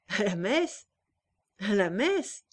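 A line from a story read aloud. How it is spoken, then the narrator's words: Sneering repetition. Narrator (French): répéta-t-il en ricanant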